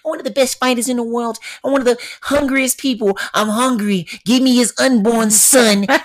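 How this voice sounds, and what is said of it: Mike Tyson impression. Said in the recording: “So Mike Tyson ... You like one of my favorite people to impersonate.”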